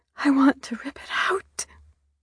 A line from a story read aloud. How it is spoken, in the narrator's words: I whispered